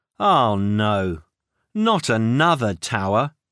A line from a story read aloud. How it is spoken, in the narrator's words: he sighed